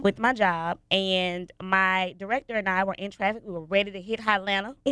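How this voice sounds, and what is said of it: Stuffy, congested voice. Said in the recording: “I'm sure you can hear the stuffiness in my voice... I am recovering from RSV”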